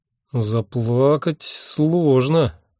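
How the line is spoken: Uncertain drawl. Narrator (Russian): неуверенно протянул я

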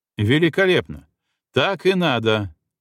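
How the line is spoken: Deliberately loud. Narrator (Russian): нарочно громко говорил

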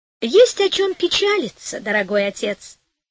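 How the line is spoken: Cheerful. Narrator (Russian): весело сказала Пантагеро

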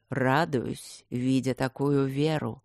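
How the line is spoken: Weary, condescending reply. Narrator (Russian): устало и снисходительно отвечал жрец

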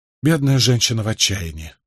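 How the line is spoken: Sympathetic sigh. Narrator (Russian): сочувственно вздохнул Николас

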